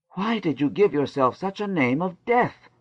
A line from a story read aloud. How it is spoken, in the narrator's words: he asked, gasping